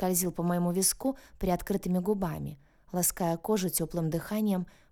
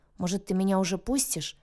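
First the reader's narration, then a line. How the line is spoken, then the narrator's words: Grumbling. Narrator (Russian): проворчала я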